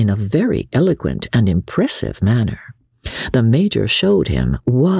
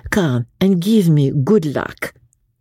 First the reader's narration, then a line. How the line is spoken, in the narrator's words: she said, still in a foreign accent